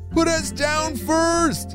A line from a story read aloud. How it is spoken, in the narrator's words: Enzo shouted back